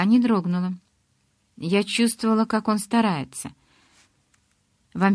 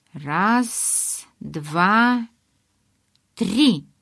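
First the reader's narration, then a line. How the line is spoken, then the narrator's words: Hoarse wheeze. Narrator (Russian): прохрипел он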